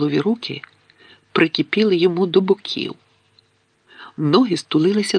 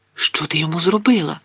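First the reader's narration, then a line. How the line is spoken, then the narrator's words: Whisper. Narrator (Ukrainian): прошепотів Гаррі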